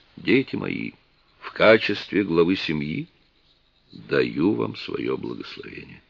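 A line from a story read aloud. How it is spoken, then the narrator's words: Sly, solemn. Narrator (Russian): С лукавой усмешкой торжественно произнес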